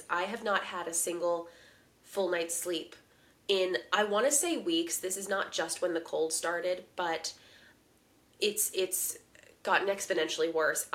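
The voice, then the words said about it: Sick, cold-affected voice. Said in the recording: “as you can hear in my voice, I'm still dealing with the after effects of this”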